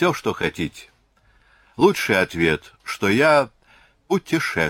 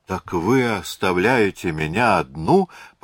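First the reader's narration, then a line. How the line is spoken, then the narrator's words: Moaning, like hurt girl. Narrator (Russian): простонала Аделаида голосом обиженной девочки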